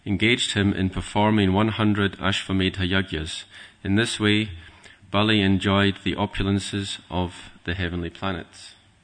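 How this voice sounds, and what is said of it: Northern accent. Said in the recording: “A good northern accent, too.”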